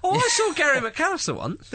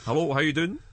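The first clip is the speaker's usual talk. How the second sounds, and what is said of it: Scottish accent impression. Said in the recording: “good impression of him ... He does good Scottish, doesn't he? Gives good Scott.”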